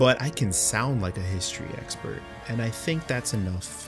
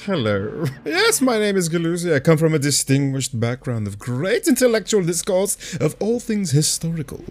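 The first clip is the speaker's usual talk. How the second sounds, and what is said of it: Put-on pompous accent. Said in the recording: “do a little accent. You got to sauce it up a little bit”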